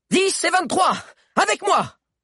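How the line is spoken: Queen shouting again. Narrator (French): cria une seconde fois la reine

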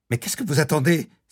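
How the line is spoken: Exclaimed. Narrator (French): s'écria Jenny

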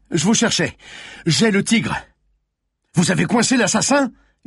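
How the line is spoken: Yelled. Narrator (French): hurla le commissaire

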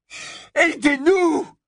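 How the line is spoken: Desperate scream. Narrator (French): hurla-t-il, fou de désespoir

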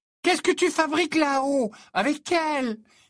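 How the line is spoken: Exclamation. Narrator (French): s'écria Lavande Brown

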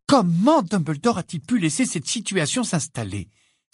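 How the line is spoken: Sudden exclamation. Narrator (French): s'exclama soudain Hermione en faisant sursauter Harry et Ron

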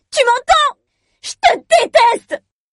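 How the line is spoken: Screaming hoarsely. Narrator (French): Je crie à m'en casser la voix

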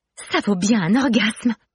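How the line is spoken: Sudden exclamation. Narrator (French): s'exclame soudain Romy

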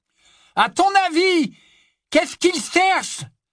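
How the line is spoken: Shouted, receding into distance. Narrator (French): cria, tandis qu'il s'éloignait de plus en plus vers le nord

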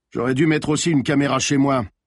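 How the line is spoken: Grumbled. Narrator (French): grogna le commissaire

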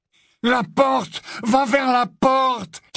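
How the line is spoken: Shouted into ear. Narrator (French): cria Malfoy à l'oreille de Harry

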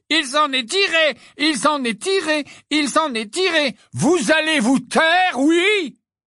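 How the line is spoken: Roared. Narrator (French): rugit Mrs

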